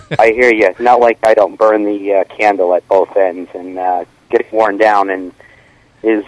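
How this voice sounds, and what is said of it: Low, deep voice from illness. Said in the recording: “Are you still sick? ... Yes, I am. ... Can't you tell I've got the low voice now? I've got the radio voice going.”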